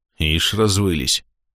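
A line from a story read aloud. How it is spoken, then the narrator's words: Scoffing grunt. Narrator (Russian): хмыкнул капитан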